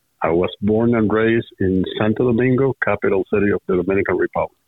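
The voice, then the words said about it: Foreign accent. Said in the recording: “based on your accent, it's reasonable to presume that you are from somewhere else”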